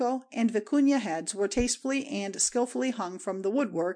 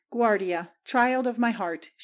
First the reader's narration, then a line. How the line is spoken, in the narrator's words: she exclaimed tenderly